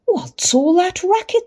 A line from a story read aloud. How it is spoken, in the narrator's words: Cindy cried